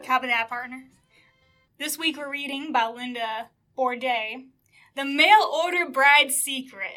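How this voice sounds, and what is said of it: Put-on Texan cowboy accent. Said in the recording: “the yeehaw state of Texas... I'm keeping the accent the entire time... Don't break the accent.”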